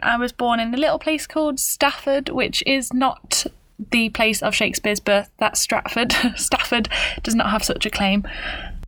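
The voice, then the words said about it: British accent. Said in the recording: “I am British, if you couldn't tell by my accent.”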